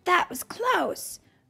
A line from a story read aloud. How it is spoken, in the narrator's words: Radius exclaimed